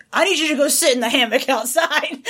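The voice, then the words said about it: Imitates another person's voice. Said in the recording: “Is that your impression of me? ... That was pretty accurate.”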